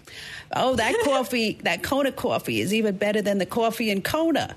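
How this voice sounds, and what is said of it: Imitated Brooklyn accent. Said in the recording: “in her Brooklyn accent, of course”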